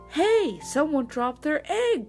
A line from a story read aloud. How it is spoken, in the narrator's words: cried the hen